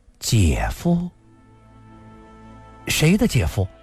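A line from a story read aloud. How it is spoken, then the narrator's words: Quiet. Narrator (Chinese): 林诗音低声地说道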